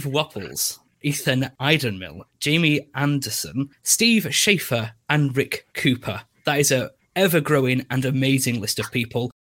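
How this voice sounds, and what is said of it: English accent. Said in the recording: “It was in an English accent”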